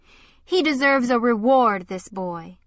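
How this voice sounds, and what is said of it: Clear voice, foreign accent. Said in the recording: “in a clear voice and a foreign accent.”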